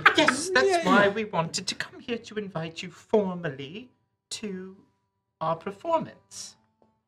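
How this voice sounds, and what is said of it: Put-on fancy British accent. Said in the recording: “speaking with a British accent? ... I'm trying to be fancy, a fancy boy.”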